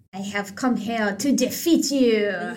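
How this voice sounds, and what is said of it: Heavy put-on French accent. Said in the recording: “in a heavy French accent”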